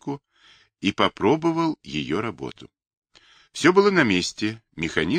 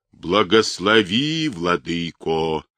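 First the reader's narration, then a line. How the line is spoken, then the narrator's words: Playful deep bass. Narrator (Russian): смешливо прогудел он густым дьяконским басом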